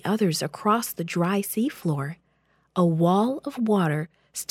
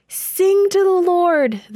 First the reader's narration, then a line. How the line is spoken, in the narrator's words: the people shouted